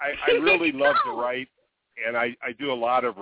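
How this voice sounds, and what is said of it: Usual voice. Nothing is said of it.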